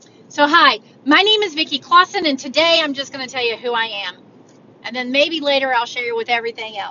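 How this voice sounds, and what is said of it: Usual voice. Nothing is said of it.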